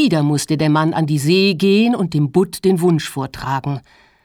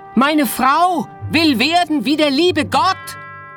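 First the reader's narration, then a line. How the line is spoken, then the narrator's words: Fisherman shouting. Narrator (German): Der Fischer, der sein eigenes Wort nicht verstand ... schrie ihm entgegen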